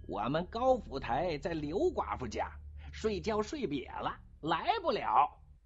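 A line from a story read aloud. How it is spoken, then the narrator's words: Shrill shout. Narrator (Chinese): 不知道谁在人堆里尖着嗓门叫了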